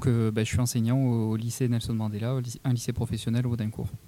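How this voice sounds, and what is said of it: Toulouse French accent. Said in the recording (French): “j'ai un accent toulousain”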